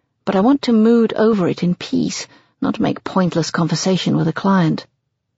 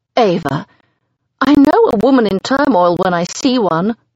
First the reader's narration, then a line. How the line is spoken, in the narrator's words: she laughs